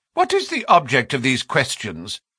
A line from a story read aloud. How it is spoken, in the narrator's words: She asked sharply